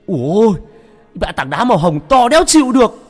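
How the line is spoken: Yelling. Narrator (Vietnamese): Cái thằng mất dạy Cường nó gào lên

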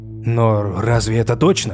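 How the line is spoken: Uncertain question. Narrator (Russian): неуверенно спросил Фрейр

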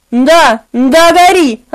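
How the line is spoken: Yelling. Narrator (Russian): орал

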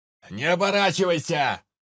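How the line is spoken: Shout from below. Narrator (Russian): прокричал откуда-то снизу невидимый с крыши Анджей

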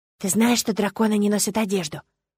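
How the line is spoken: Sudden whisper. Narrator (Russian): услышала я шепот Эдмонда

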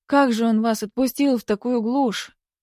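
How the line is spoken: Horrified exclamation. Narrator (Russian): в ужасе воскликнула

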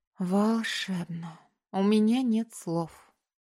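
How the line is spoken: Breathless, enchanted delight. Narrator (Russian): восторженно выдохнула, завороженная открывшимся пейзажем

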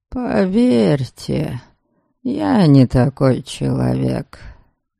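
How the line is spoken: Soft confirmation. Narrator (Russian): мягко подтвердил он

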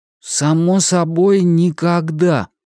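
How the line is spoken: Sleepy reply. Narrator (Russian): сонно ответил Том

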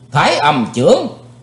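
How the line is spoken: Loud shout. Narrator (Vietnamese): Chí Tôn quát lớn

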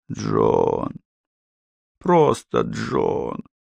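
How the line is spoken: Whispered. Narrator (Russian): захотелось прошептать

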